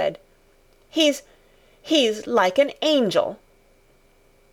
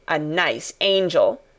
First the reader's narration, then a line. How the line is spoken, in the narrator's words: Colin sneered ferociously